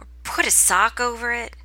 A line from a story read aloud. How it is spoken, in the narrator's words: Gwaine chuckles